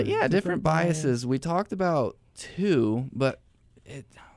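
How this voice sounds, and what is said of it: Usual voice. Nothing is said of it.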